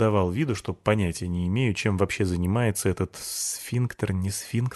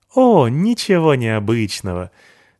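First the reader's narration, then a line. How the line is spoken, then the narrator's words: Sweet girlish laugh. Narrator (Russian): Девушка мило засмеялась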